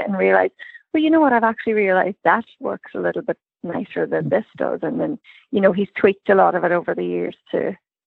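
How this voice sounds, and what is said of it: Irish accent. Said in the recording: “that Irish accent”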